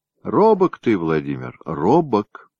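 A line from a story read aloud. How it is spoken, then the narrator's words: Sighing. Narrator (Russian): вздохнула княгиня Ефросинья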